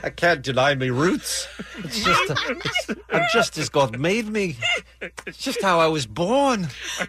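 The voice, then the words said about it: Put-on British accent, rising upswing. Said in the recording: “What's with the upswing ... I need to start working up my accent ... the only accent I could do is from A Hard Day's Night”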